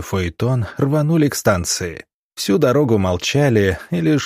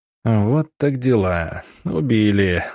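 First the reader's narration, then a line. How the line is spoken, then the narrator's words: Stunned exhale. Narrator (Russian): выдохнул Гробовский, явно обескураженный такой неожиданной новостью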